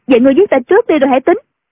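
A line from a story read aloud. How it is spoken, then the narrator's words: Crying out. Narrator (Vietnamese): Tiểu Chiêu kêu lên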